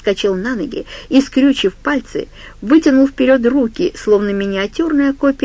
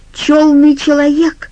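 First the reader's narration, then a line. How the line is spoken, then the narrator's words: Furious outburst. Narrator (Russian): вскрикнул Джо так яростно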